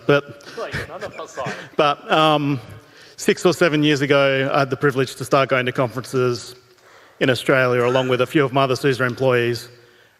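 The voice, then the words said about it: Foreign, non-local accent. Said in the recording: “As you might notice from my accent, I am not from this part of the world”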